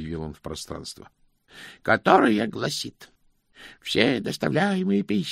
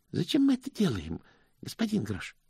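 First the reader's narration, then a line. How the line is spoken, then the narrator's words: Timid question. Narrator (Russian): робко спросил Стэнли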